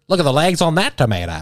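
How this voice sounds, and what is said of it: Put-on transatlantic accent. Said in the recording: “The transatlantic accent would be the most obnoxious thing in the world.”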